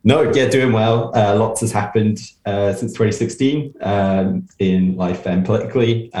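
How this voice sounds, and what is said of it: British English accent. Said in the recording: “you've got a bit of a, a British accent or an English accent uh, there”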